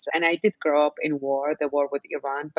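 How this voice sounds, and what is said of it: Iraqi accent. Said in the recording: “If you haven't figured it out from my accent, I'm born and raised in Baghdad, Iraq”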